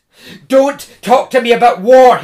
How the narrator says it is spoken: he cried

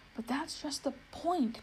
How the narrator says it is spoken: groaned Bree

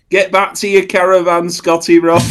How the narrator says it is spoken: he shouts

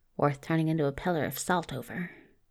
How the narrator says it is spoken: he heard him mutter

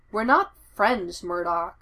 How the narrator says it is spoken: Foggy says

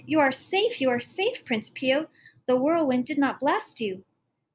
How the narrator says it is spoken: the girl cried

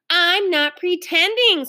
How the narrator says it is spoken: screamed Ramona

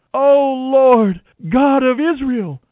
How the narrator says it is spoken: cried out

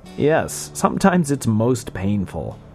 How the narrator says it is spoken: To general laughter from the audience, Farnsworth answered dryly

